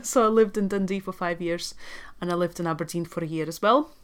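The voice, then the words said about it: Latvian speaker with Scottish-tinged accent. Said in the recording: “my accent ... some of you might be listening and thinking something is weird, but I can't tell what ... I'm actually from Latvia ... as you can tell, I have spent a significant amount of time in Scotland ... So hence the accent.”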